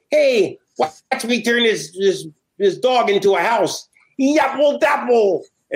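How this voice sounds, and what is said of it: Impression of a cartoon genie. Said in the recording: “That was a great impression of him... a big fat genie”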